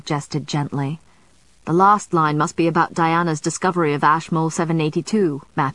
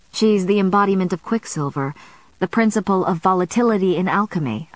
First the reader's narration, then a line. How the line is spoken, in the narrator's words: I said